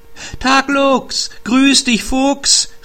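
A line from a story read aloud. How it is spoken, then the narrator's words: Hare calling out. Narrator (German): rief der Wunschhase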